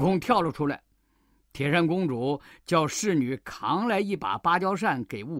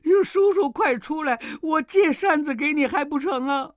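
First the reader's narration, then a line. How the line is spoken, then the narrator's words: Wailing in pain, begging. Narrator (Chinese): 铁扇公主疼得呼天喊地，连连求饶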